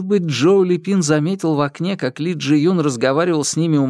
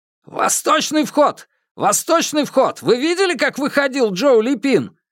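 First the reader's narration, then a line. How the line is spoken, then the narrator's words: Shouting into radio. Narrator (Russian): крикнул Ду Цзяньпин в рацию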